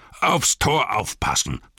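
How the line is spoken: Captain thundering. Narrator (German): donnerte der Hauptmann

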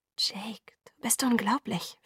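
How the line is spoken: Whispered. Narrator (German): flüsterte ich

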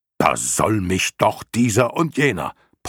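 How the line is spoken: Blustering outburst. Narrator (German): polterte Hykrion los

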